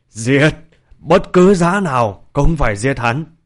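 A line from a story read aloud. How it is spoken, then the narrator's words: Shrill piercing screech. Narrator (Vietnamese): Thanh âm lanh lảnh chói tai của Vương Công Công rít gào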